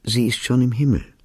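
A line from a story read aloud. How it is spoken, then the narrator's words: Gentle repetition. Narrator (German): wiederholte sanft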